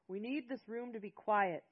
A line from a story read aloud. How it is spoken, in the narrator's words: Jonathan yelled over the crowd